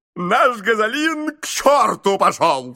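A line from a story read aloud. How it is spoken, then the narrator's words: Shouting in delight and horror. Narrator (Russian): с восторгом и ужасом крикнул мистер Адамс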